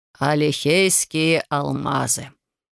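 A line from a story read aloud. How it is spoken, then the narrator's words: Solemn. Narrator (Russian): торжественно произнес Бьорн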